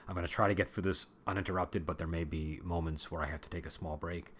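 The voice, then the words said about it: Voice slightly off from illness. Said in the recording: “my voice is a little off today ... I haven't been feeling well and so it's affecting my voice”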